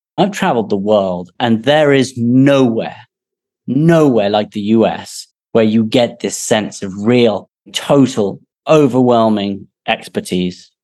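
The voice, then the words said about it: English accent. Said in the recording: “I sit here with an English accent”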